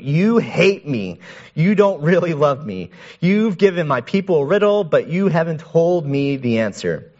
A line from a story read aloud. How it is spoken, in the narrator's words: Samson's wife threw herself on him, sobbing